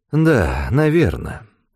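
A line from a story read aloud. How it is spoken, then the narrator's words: Sighing. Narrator (Russian): вздохнул он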